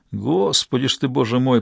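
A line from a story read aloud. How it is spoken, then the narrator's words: Muttering. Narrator (Russian): пробормотал второй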